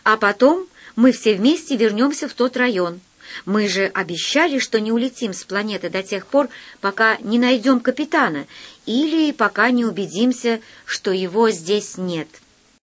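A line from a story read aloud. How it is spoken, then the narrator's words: Stern. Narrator (Russian): сказал я строго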